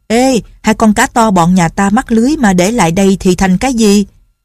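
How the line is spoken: Shouting. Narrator (Vietnamese): Đào Chi Tiên la lên

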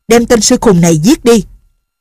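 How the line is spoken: Old man's sharp shout. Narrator (Vietnamese): lão liền quát

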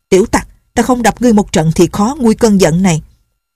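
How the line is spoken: Angry old woman cursing. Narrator (Vietnamese): Bà vẫn còn tức giận chửi

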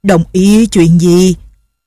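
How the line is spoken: Muffled, indistinct question. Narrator (Vietnamese): Lệnh Hồ Xung đưa tay bịt miệng, giọng ồm ồm không rõ, hỏi

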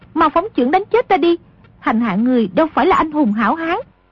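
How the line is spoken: Frightened cry. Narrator (Vietnamese): Nữ lang càng hoảng sợ kêu lên

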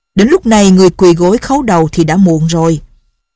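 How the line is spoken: Loud laughing speech. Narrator (Vietnamese): Lâm Bình Chi cười to ha hả, nói

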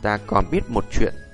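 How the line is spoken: Smiling. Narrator (Vietnamese): Tiêu Viêm mỉm cười

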